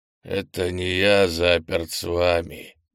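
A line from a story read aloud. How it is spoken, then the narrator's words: Growling. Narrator (Russian): прорычал Крис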